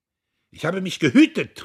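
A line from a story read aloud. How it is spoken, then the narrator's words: Defendant interrupting, calling out. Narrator (German): rief der Angeklagte dazwischen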